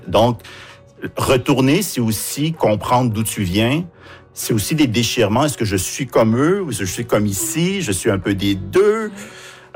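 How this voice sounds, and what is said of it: Québécois French accent. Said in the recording (French): “mon accent est complètement québécois”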